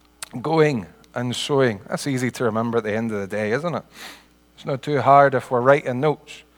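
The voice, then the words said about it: Scottish accent. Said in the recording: “Sorry about the accent. My brother mentioned about an accent. I don't think he meant this accent. Makes taking notes a wee bit more difficult. We should really have a few Scottish people. There's one Scottish person here. He could translate for the rest of you.”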